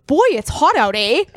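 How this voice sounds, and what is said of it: Put-on Saskatchewan Canadian accent. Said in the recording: “I know that accent. That accent comes from Saskatchewan ... that's his accent.”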